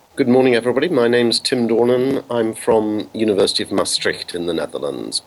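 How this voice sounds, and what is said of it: English accent. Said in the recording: “you can tell from my accent that that's not where I was born, and I'm English.”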